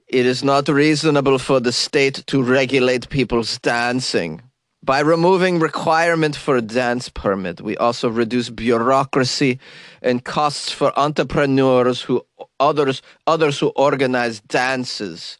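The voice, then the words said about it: Bad put-on Swedish accent, German-sounding. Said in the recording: “that was a terrible Swedish accent. I realize I don't know what that was. I have a cold, so it's a mixture of German and cold.”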